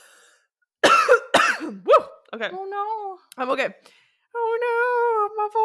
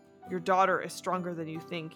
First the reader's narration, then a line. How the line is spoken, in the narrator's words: he had said